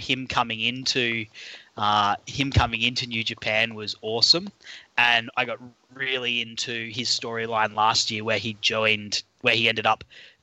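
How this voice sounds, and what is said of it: Australian accent. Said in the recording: “my accent, I'm an Aussie”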